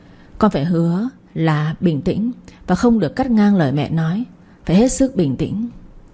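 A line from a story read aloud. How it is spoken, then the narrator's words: Sad choked voice. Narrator (Vietnamese): với đôi mắt u buồn, đoạn bà cất giọng nghẹn ngào nói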